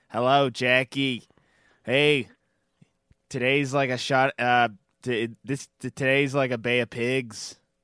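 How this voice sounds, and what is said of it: Imitates another person's voice. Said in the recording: “I was going to do a whole Johnny, you know, FK impersonation... it sounds different in my head”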